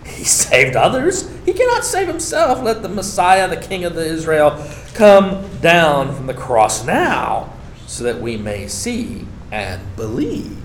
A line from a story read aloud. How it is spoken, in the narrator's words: the chief priests, along with the scribes, were also mocking him among themselves and saying